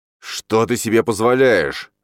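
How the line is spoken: Growling. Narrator (Russian): зарычал Биревой

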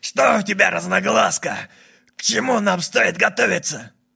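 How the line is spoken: Growled. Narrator (Russian): шериф Каннам прорычал

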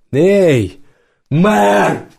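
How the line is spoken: Shouting. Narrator (Russian): крикнул Мамед

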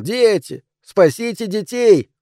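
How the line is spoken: Shouting. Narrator (Russian): Рауль кричал

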